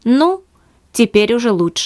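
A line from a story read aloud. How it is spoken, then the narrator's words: Softened tone. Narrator (Russian): сказал хозяин помягчевшим тоном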